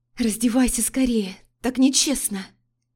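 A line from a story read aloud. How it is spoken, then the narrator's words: Impatient hiss. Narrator (Russian): Зашипела я, больше не в силах ждать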